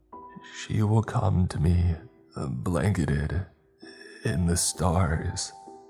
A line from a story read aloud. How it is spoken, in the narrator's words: he said weakly